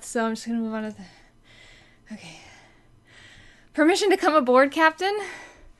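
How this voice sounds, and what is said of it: Out of breath. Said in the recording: “I just did some jumping jacks so that I could be out of breath”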